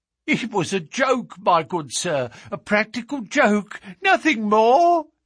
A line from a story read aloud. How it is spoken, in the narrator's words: whined incessantly